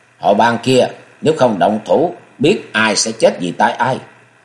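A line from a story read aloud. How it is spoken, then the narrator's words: Cold raised voice. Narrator (Vietnamese): Cơ Chân Chân lạnh lùng cao giọng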